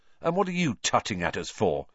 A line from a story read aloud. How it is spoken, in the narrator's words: said Ron irritably